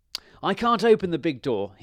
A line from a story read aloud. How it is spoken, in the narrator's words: he shouted